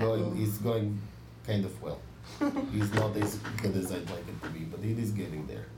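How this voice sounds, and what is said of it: Usual voice. Nothing is said of it.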